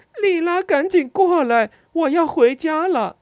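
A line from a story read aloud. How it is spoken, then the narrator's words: Angry heart-rending scream. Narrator (Chinese): 愤怒地对着黑暗大喊着，声音撕心裂肺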